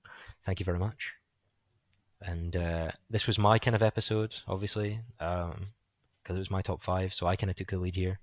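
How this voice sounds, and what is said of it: Slightly hoarse voice. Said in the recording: “my voice is getting a bit hoarse because I've been talking for two hours straight”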